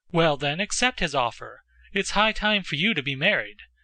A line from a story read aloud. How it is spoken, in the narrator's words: answered the Countess sharply and sarcastically